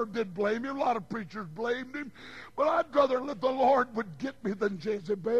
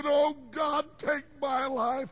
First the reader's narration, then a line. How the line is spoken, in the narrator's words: he cried and said